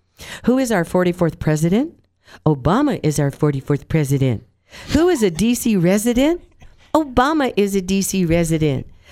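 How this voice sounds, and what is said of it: Childlike kindergarten-style voice. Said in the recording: “kindergarten accent”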